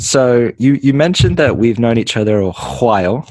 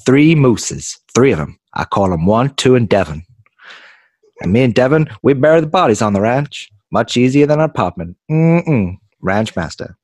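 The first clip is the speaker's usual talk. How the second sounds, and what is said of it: Put-on creepy cartoon character voice. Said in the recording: “Your accent sounds exactly like Herbert.”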